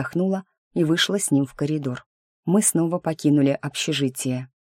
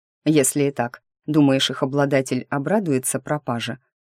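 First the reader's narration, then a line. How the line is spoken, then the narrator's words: Menacing question. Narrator (Russian): грозно спросил Ник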